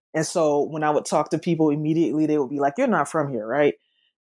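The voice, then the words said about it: Southern American accent. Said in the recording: “my accent, though it's it's southern, it's not Memphis Southern”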